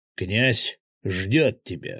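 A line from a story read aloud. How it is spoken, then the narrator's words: Barked again. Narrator (Russian): снова рявкнул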